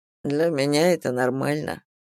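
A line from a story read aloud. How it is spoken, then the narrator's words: Muttered. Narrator (Russian): пробормотал Рот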